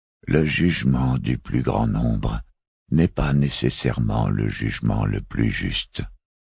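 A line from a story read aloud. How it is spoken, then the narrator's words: Grave, detached voice. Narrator (French): reprit Barophile le 25e d'une voix grave, détachée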